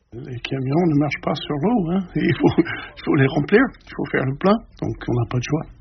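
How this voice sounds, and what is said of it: Strong American accent speaking French. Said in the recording (French): “mon accent affreux américain”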